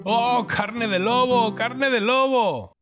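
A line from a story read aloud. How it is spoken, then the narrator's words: Shouting. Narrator (Spanish): empezaron a gritar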